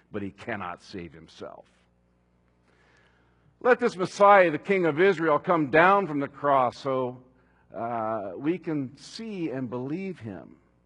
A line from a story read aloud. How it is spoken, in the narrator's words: they scoffed